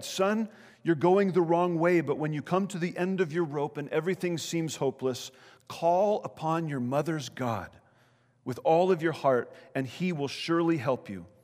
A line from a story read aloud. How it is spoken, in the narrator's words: Frantically, she cried